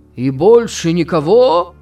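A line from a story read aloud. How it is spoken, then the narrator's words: Shouting. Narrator (Russian): кричал Флэк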